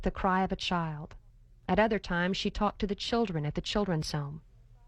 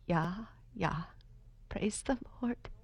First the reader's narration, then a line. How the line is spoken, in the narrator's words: She murmured softly